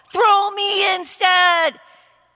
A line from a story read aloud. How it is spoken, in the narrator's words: he shouted